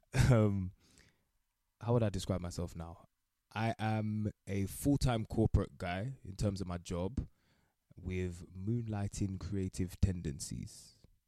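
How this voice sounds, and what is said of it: British accent. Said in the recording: “I am the realest Jamaican that you ever hear, despite the British accent.”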